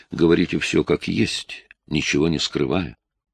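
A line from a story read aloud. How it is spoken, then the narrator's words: Calm, restrained. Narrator (Russian): леди Драмонт спокойно и сдержанно сказала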